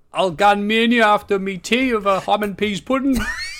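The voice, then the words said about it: Put-on Hartlepool northeast English accent. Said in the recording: “Why, are you from Hartlepool? I don't know, it's just a funnier accent. ... that's why I keep on doing that accent.”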